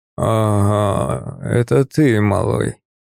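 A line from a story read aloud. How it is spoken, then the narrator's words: Hoarse wheeze. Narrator (Russian): прохрипел он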